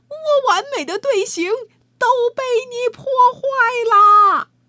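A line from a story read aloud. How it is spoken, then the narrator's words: Shouting conductor. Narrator (Chinese): 乐队指挥喊道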